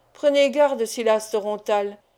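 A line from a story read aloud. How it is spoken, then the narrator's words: Unrestrained menacing cry. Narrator (French): s'écria Sarkany d'un ton menaçant, sans se contraindre cette fois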